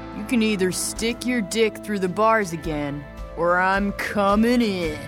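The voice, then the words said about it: Woman speaking in deep male voice. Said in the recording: “She says, still in a deep male voice.”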